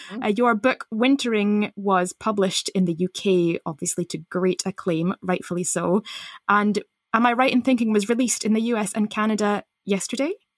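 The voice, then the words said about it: Mock-serious formal podcast host voice. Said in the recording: “in my serious podcasting voice”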